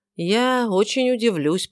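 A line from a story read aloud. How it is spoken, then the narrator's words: Gloomy thought. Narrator (Russian): подумал он мрачно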